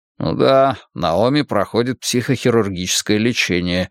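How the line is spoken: Grumbling. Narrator (Russian): проворчал я

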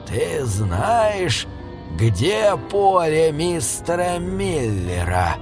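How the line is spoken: Menacing question. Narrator (Russian): грозно спросил мистер Хокинс

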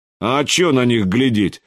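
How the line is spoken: Glum drawl. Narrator (Russian): уныло протянул Шадрин

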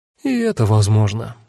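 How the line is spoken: Sighing. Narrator (Russian): вздохнула Кара

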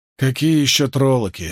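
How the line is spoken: Angry grumble. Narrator (Russian): сердито проворчал он

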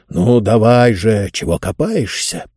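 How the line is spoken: Grumbling. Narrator (Russian): проворчал Джонс

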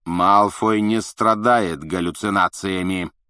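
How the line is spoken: Barking. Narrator (Russian): рявкнул Снег

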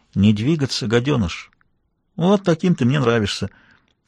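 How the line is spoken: Whisper. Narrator (Russian): я прошептал

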